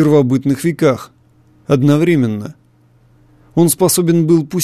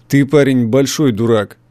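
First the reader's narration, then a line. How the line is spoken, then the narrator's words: Rough retort. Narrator (Russian): грубо возразил Ван Хорн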